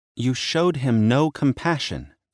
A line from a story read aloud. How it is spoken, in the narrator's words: she said, and her voice trembled